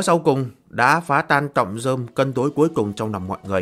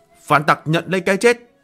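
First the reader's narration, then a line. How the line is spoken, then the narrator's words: Sudden loud shout. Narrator (Vietnamese): Phía sau Ngô Phong đột nhiên hét lớn một tiếng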